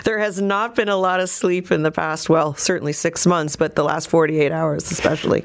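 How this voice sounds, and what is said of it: Slightly rough, strained voice. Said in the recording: “I'm exhausted ... You can hear my voice is still a little sketchy.”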